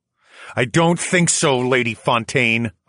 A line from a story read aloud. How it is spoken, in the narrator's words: I growled